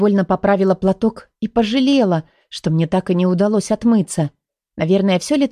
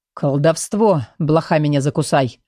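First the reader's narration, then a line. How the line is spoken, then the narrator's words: Mumbling. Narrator (Russian): пробормотал кто-то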